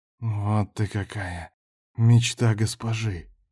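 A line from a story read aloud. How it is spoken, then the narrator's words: Whisper. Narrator (Russian): шептал он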